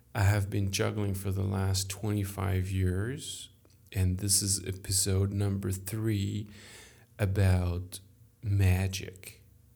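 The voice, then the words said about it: French accent. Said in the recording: “I am French. Sorry for my accent.”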